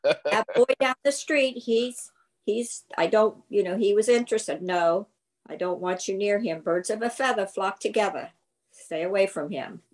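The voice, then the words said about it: Put-on New England accent. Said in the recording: “in her New England accents ... Perfectly said with the New England accent.”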